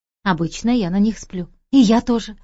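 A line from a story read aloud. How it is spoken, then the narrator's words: Relieved exhale. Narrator (Russian): выдохнула с облегчением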